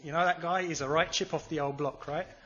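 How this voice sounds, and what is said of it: Slight put-on Cockney accent. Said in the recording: “You have to say it with a slightly Cockney accent.”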